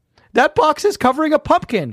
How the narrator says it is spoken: he exclaimed

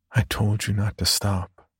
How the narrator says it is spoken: she whispered

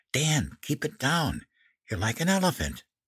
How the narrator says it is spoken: Mom stifled a giggle and whispered

